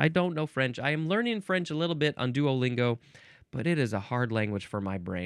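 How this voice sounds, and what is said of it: Usual voice. Nothing is said of it.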